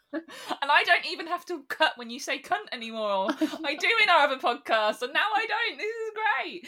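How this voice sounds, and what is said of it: English regional accent, London-Birmingham blend. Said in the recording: “this lovely accent you can hear that's a combination of London, Birmingham, and farmers”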